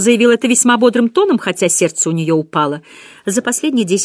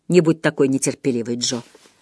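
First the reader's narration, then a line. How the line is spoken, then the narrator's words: Whispered. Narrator (Russian): шепнул ей Вернон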